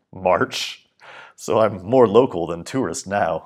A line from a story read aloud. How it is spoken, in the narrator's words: I laughed